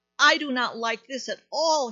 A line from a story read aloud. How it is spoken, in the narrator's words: cried